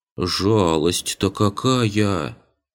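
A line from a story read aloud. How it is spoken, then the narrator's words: Boy drawling mock regret. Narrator (Russian): с притворным сожалением протянул подошедший мальчишка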